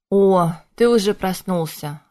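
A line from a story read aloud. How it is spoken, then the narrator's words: Relieved exhale. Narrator (Russian): облегченно выдохнул Шоши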